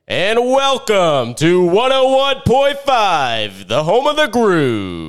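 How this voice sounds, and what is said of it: Radio DJ announcer voice. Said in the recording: “I think ... got a great radio voice. ... Ooh. Man, that was nice. I would tune into that radio station.”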